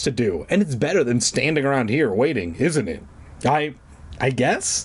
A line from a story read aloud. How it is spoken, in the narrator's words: Clark stammered